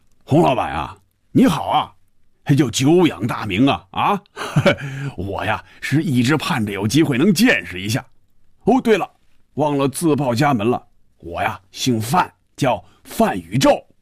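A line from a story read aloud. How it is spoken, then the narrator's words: Muffled booming voice. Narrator (Chinese): 一串笑声，然后是有些瓮声瓮气的声音说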